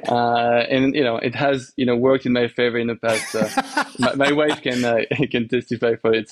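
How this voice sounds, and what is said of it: French accent. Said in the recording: “I'm French. Thanks. You know, my accent is, I'm trying to change it.”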